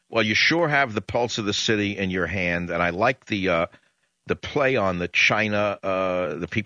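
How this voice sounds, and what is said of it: New York accent. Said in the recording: “I'm the only one left with a New York accent”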